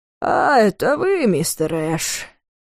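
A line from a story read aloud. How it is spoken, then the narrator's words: Drawn-out drawl. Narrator (Russian): протянул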